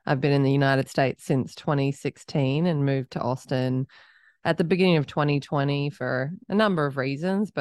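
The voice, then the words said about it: Australian accent. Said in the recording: “I'm Australian. People can probably start to pick that up from my accent”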